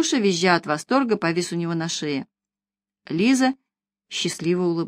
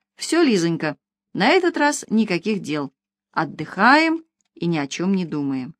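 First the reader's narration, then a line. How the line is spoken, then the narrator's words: Cheerful. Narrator (Russian): весело сообщил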